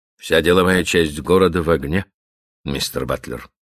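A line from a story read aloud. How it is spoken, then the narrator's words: Grim. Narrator (Russian): мрачно продолжал Каупервуд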